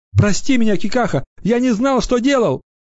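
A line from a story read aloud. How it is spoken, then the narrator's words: Sobbing lament. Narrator (Russian): Юноша, рыдая, запричитал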